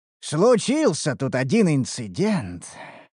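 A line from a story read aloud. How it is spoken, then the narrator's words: Blacksmith sighing. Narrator (Russian): вздохнул кузнец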